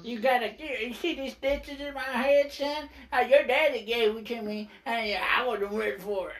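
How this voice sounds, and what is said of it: Imitates another person's voice. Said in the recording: “That's my Arn impression ... Dang, that's pretty dead on ... That's pretty spot on right there ... I never heard anybody say it closer”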